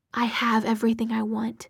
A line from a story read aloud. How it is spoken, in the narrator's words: she whispered